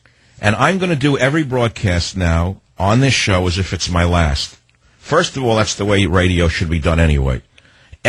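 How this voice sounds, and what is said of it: Slightly affected, sore-throat voice. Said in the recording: “I have a strep throat. I told you my voice is a little affected.”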